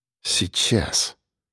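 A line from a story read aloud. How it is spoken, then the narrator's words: Mumbling. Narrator (Russian): пробормотал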